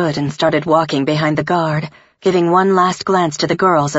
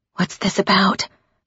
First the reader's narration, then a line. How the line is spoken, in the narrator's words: I whispered